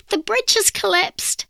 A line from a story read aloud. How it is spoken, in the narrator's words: exclaimed